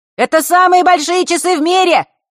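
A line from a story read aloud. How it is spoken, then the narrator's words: Deafening shout, young boy. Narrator (Russian): выкрикнул какой-то паренек не старше самой Василисы, чуть не оглушив ее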